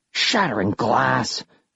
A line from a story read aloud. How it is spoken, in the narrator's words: I hissed